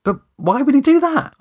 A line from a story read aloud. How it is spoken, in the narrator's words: spluttered